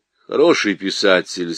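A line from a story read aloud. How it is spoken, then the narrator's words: Plain. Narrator (Russian): сказал он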